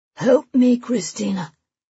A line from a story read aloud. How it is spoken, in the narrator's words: he gasps